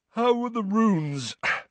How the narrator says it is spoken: said Ron, yawning

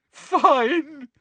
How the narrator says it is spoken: said Hermione, now sobbing into her hands again

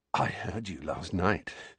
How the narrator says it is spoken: said Dudley breathlessly

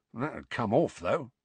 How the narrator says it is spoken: muttered Mundungus

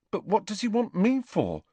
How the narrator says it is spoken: asked Neville nervously, as though he were expecting detention

